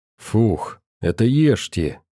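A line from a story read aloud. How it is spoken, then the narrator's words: Exhaled. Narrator (Russian): выдохнул Селок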